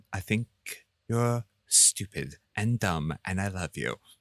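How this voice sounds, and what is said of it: Impression of Darcy. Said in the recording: “That was my Darcy impression.”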